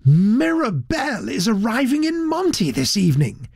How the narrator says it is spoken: he confided excitedly to Mr

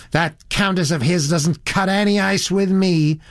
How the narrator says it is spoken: said the girl in a rather high, shrill voice

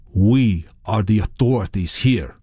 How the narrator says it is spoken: he said

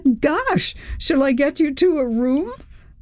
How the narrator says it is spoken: Chris laughed

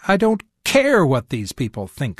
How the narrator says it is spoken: I snapped

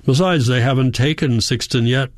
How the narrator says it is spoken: he says in his normal tone

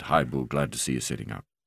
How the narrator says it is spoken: Mark said quietly

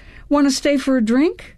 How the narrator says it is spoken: blurted out

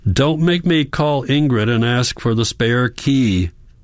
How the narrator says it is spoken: Hans shouts, his forehead against the glass

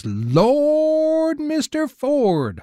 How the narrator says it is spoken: hollers Mills

